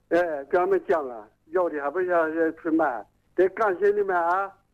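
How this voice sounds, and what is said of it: Strong regional accent, hard to understand. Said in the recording (Chinese): “口音，您是哪里人呢 ... 你这个口音很不好懂啊”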